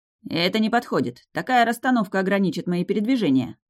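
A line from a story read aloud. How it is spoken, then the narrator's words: Sharp. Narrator (Russian): резко сказал блондин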